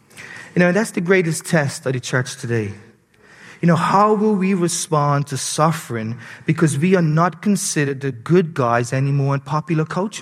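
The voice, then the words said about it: Bermudian accent. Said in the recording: “my Bermudian accent”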